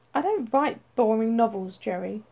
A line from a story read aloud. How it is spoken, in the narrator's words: announced curtly